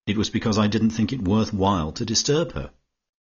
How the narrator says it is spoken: said Georgie icily

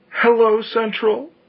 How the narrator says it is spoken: she gasped, almost inaudibly

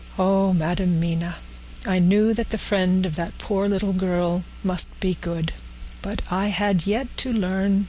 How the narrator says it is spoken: said tenderly

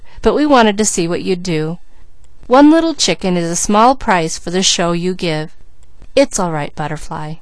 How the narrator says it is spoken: laughed Peter

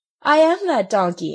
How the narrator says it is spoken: answered the marionette, laughing

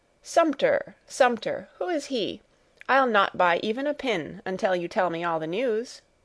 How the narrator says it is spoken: she continued, laughing

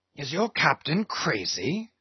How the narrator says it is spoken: whispering Fadala

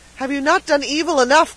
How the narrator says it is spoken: cried the peddler, regaining his firmness

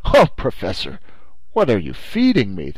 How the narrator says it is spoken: the Canadian answered in a tolerably skeptical tone

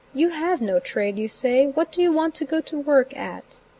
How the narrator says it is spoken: kindly said

